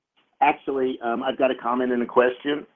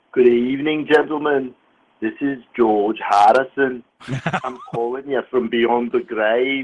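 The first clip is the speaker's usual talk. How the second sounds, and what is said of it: Imitates another person's voice. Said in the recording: “a reasonably good impression, I might say ... Not bad. Not bad.”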